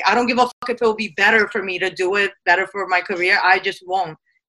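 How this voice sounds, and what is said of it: Brooklyn New York accent. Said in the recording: “he's a New Yorker at heart ... you're to Brooklyn ... I love your accent ... keep that accent”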